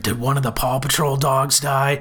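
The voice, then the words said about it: Poor deep gravelly British-accented impression. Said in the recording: “terrible Roy impression, by the way. I couldn't do both the deep gravel and a British accent at the exact same time”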